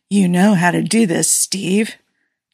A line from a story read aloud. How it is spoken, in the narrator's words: Tony breathed against the back of his neck